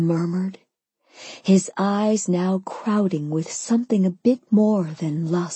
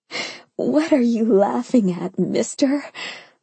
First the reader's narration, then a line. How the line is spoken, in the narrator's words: I giggled